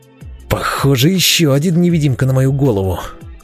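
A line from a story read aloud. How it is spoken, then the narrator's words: Angry hiss. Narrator (Russian): Зло прошипел я в пространство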